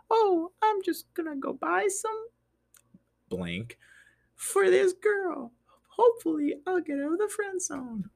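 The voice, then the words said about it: Mock voice of younger self. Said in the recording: “this is my 16-year-old impersonation of myself”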